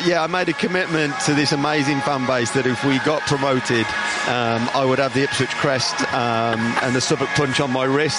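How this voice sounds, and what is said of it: Slight Black Country English accent. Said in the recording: “You may just pick up the twang in my accent. ... I'm a black country boy.”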